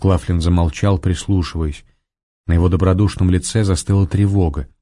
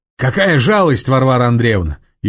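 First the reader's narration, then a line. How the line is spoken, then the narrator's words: Shouting from afar. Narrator (Russian): еще издали крикнул он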